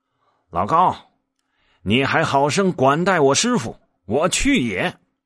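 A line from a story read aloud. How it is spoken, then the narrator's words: Calling out. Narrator (Chinese): 然后叫道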